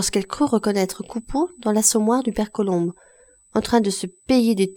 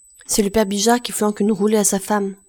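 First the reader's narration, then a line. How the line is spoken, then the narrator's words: Plain. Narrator (French): répondit la repasseuse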